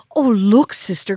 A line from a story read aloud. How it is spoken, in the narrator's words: cried